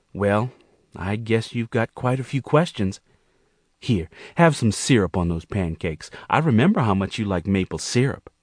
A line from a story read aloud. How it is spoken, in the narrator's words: Monique smiled nervously and admitted to Gerald